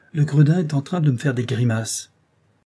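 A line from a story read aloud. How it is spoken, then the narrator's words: Exclaiming. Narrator (French): s'écria Joyce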